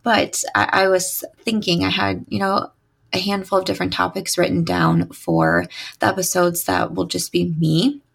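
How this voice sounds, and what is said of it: Slightly raspy voice. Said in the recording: “my voice is still a little raspy today”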